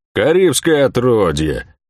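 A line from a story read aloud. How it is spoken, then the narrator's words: Grumbling merchant. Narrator (Russian): проворчал купец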